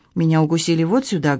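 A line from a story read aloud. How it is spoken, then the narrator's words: Plain. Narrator (Russian): говорит она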